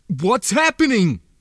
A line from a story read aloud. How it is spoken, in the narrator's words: the man cried